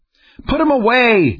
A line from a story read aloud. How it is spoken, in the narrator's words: yelled